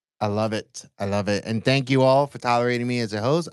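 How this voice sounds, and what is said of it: American accent. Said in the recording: “I know I have this very obnoxious American accent”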